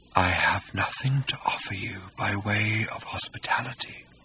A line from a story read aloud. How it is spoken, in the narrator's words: said Hakdar faintly